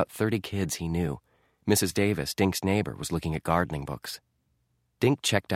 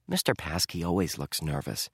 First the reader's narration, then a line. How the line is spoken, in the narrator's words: Dink whispered back